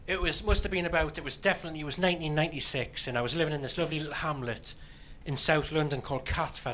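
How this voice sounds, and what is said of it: Newcastle English accent. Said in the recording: “that's where I'm from, Newcastle. I don't know if you got the accent. It's something that just gives it away”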